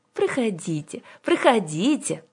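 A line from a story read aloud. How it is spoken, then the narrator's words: Gentle old woman inviting. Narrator (Russian): ласково пригласила их старушка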